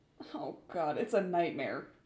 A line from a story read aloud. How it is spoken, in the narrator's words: he whimpered